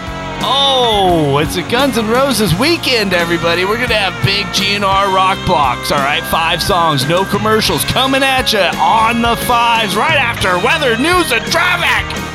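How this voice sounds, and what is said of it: Over-the-top rock radio DJ voice. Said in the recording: “that radio voice ... we all try to do that voice”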